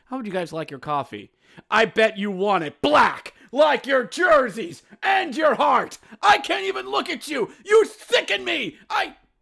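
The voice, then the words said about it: Yelling Montgomery Burns impression. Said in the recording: “I'm yelling, and I'm talking like Montgomery Burns for some odd reason from that one Simpsons episode”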